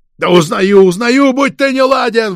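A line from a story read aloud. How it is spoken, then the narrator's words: Shout. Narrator (Russian): выкрикнул Егоркин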